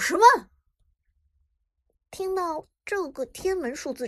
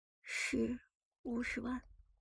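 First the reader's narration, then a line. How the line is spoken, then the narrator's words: Resigned sigh. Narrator (Chinese): 他无奈的叹了口气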